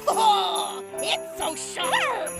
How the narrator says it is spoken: Shoban squealed with delight

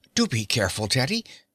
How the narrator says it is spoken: she said in a worried tone

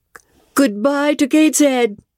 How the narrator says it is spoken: cried I

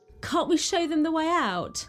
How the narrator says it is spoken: she cried

